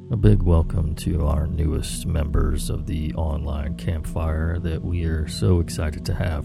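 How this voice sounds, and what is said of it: Hoarse voice. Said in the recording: “I'm a bit under the weather today ... my voice is extra hoarse.”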